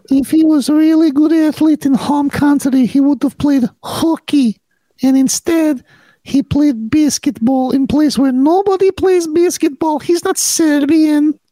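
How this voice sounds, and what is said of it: Speaking in a different accent. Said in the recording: “talking in a different accent ... Why does he talk like Groot?”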